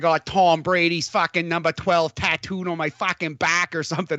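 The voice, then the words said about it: Bad put-on Boston accent. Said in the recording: “that was a terrible Boston accent. I need to do better.”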